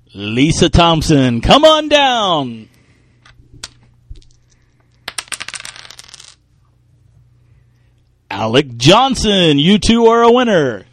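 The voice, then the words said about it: Game show host voice. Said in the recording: “game show voice”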